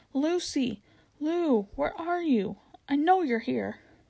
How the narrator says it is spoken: He didn't like this at all ... even shouted

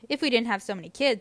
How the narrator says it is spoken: he adds quickly

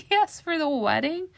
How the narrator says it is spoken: Caramel said and laughed

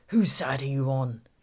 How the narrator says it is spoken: growled

